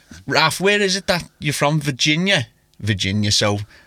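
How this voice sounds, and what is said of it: Usual voice. Nothing is said of it.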